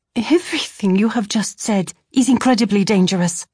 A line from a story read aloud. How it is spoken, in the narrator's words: I exclaimed